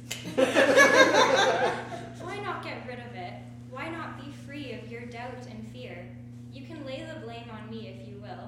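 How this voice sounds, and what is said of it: Softer voice. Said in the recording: “in a softer voice”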